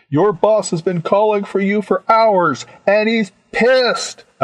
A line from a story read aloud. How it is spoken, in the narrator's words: I yelled at the open channel